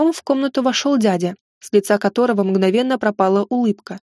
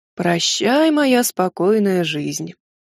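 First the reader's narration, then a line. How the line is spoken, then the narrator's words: Heavy sigh. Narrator (Russian): Тяжело вздохнул он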